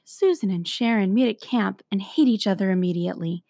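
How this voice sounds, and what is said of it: Calm public-radio narrator voice. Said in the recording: “It's the NPR voice.”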